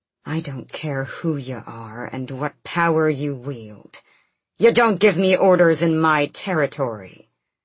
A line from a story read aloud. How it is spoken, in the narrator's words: Rolf hissed